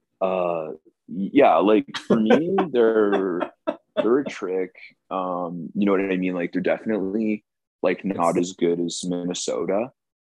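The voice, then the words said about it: Imitates another person's voice. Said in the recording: “could do a Thomas impression”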